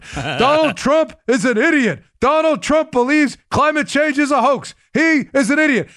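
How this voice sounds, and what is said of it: Imitates another person's voice. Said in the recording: “my Bernie impression”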